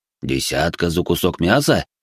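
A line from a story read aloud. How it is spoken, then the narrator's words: Stunned mutter. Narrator (Russian): ошарашенно пробормотал Пак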